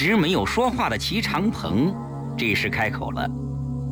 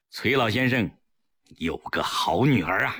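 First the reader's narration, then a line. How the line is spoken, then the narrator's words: Sudden admiring sigh. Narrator (Chinese): 另一个民主人士忽然感叹道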